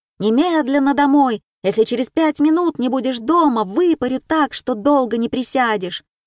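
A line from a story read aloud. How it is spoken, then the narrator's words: Sudden angry shout. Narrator (Russian): И как закричит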